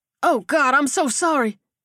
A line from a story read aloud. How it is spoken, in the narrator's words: Dutch blurted